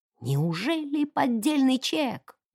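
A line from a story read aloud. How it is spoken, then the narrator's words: Curious whisper. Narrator (Russian): прошептала миссис Шилдс, глаза которой сияли от любопытства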